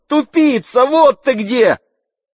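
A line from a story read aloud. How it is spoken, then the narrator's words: Girl shouting. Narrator (Russian): девушка крикнула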